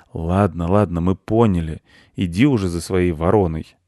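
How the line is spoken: Sighing cat. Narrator (Russian): вздохнул кот

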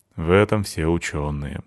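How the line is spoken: Sighing. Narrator (Russian): вздохнул я

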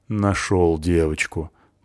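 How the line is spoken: Grumbling. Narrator (Russian): проворчала Натаха

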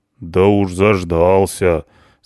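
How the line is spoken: Deep hoarse bass. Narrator (Russian): сказал кто-то густым, хриплым басом

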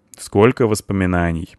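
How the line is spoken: Plain. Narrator (Russian): сказал Ингвар

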